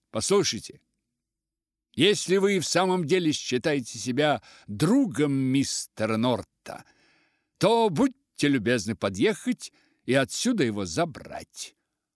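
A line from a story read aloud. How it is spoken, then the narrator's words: Loud and clear. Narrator (Russian): громко, отчетливо сказал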